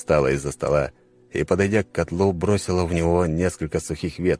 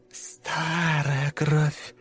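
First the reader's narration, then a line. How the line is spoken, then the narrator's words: Whispered. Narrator (Russian): прошептала она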